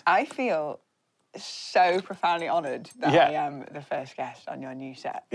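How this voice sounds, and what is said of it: Speaks with a noticeable accent. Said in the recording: “she has an amazing accent.”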